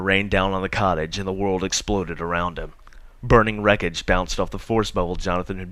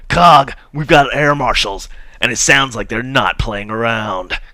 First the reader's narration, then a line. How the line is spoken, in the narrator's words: yelled